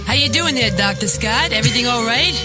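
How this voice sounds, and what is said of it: Long Island accent. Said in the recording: “Use your Long Island accent ... She can still do the accent.”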